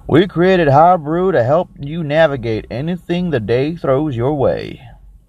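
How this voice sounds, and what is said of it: Bad put-on Texan accent. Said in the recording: “let me do it in my shitty Texan voice.”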